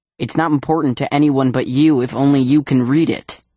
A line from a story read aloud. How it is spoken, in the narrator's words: says Dad